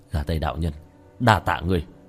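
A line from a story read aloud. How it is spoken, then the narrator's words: Smiling mutter. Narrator (Vietnamese): khóe miệng của tiểu thất hiện lên một nụ cười, lẩm bẩm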